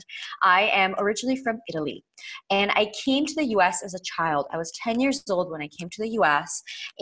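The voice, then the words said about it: Heavy American accent. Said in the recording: “my heavy American accent”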